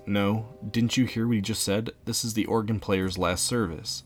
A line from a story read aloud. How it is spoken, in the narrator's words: Arnold calmly says